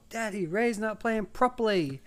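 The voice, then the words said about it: Imitated child's Australian accent. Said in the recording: “like this Australian accent ... They got this accent.”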